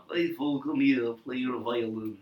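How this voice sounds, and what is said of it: Imitated Russian Jewish accent. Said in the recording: “The little Russian Jewish mouse... I love the dad's accent.”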